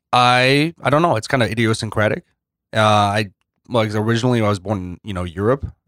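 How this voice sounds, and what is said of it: Unusual accent. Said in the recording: “you got like a, as far as St. Louis people, an accent?”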